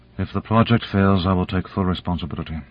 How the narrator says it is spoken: Bronova, her voice toneless, said

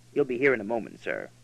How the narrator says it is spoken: Davenport said in a low voice

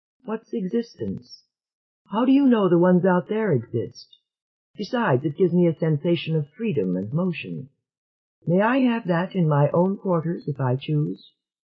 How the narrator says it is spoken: Selene would shrug, coolly, and say

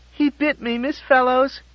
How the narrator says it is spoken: Jerry cried in rage

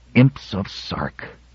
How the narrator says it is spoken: groaned Terrans

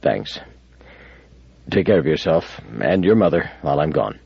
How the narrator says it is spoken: muttered

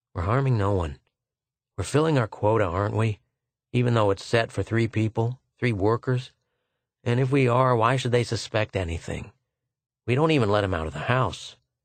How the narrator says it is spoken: Arbin muttered

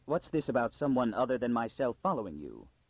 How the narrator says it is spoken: Pritchard intervened sharply

